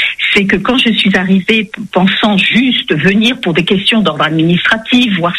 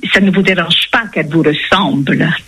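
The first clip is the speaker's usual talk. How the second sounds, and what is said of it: Put-on foreign accent in French. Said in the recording (French): “elle parlait un très bon français, vous savez, avec l'accent à la Elvire Popesco ... avec l'accent que je vais essayer de restituer”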